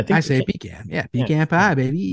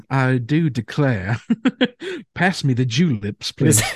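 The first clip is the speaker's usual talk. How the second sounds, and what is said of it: Put-on Southern accent. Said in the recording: “Just to sound more ... Southern?”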